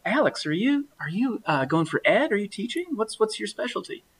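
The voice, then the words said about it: Put-on Alabama accent. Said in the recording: “Alabama accent there”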